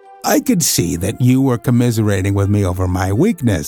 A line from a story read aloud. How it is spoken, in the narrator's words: said Holmes, laughing